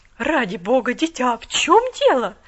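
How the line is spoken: Exclaiming. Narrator (Russian): воскликнула она

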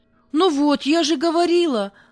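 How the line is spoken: Exclaimed. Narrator (Russian): воскликнула Галя

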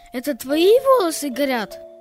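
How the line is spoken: Surprised exclamation. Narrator (Russian): воскликнул удивленно Петя

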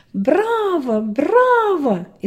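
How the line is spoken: Loud crowd shouting. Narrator (Russian): Вокруг все громко закричали

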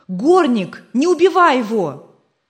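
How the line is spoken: Terrified shout. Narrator (Russian): Вне себя от испуга Джим закричал

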